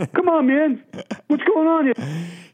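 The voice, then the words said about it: Imitates another person's voice. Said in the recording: “If his impression was better, I would have definitely gone with that ... You got to work on your Donald Trump”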